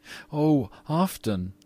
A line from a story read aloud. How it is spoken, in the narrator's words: cried the little girl